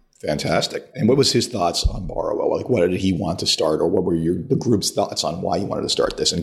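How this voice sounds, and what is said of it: Very hoarse voice. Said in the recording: “I have a very hoarse voice today.”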